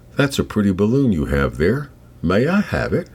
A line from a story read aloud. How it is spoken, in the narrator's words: The old bloke addressed Ellie in a kindly voice, saying